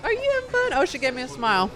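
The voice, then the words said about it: Baby voice. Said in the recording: “here we go with the baby voice... full baby voice”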